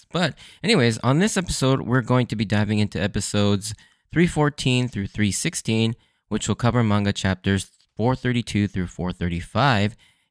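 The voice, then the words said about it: Hoarse, worn-out voice. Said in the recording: “my voice is a little dead again”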